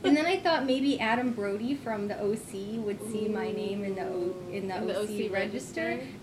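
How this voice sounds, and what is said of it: Valley Girl accent. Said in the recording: “I can totally do Valley Girl. ... I can totally do the accent too”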